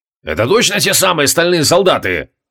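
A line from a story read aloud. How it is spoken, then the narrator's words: Angry bark. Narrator (Russian): рявкнул Креол, злобно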